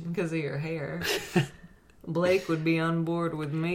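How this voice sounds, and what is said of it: Slips into a slight country accent. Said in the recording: “You even went to a little country accent there when you described it.”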